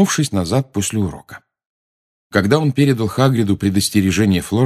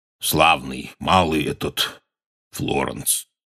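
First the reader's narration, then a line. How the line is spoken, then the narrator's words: Hoarse. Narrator (Russian): хрипло сказал он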